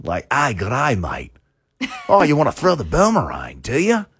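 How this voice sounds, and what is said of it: Rough, aggressive put-on Australian accent. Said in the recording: “it's a rough accent. It's almost like the Boston accent ... it's very aggressive ... Australian”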